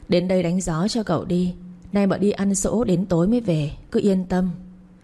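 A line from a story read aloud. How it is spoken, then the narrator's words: Fake moaning. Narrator (Vietnamese): cậu giả giọng rên rỉ bảo con Tâm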